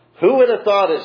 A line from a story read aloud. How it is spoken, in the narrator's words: she says